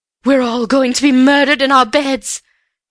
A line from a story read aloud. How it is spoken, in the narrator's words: she quavered